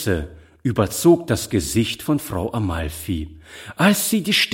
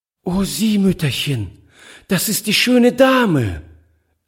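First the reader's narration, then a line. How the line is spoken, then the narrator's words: Delighted exclamation. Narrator (German): rief sie voll Entzücken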